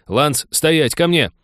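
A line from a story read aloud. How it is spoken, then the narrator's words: Frightened barking shout. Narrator (Russian): рявкнул Тед, перепуганный, больше воришки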